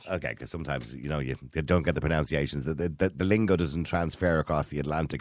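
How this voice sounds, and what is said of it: Noticeable accent. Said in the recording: “I'm loving the accent.”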